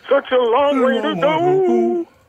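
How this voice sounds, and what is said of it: Imitates another person's singing voice. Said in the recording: “I'm doing Michael McDonald impersonation from Ride Like the Wind”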